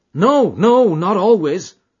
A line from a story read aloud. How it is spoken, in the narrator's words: cried Morris with vehemence